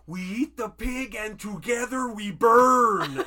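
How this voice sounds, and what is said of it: Loud imitation of another person's voice. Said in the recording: “Is that a good impression? ... It's decent, yeah. ... It's a lot louder than Adam Sandler.”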